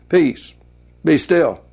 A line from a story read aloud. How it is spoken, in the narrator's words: spoke calmly but firmly to the boisterous seas and the wind